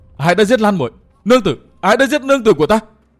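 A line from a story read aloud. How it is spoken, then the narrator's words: Anguished howl. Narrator (Vietnamese): gào lên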